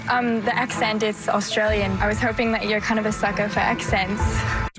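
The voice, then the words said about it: Put-on Australian accent, not very convincing. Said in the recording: “using an Australian accent ... Do we believe that's a good Australian accent? ... Sounded good to me. ... your Australian is not very good”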